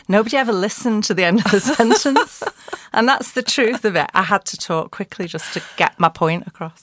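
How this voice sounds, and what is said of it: Scouse twang. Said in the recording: “you've definitely got that Scouse twang”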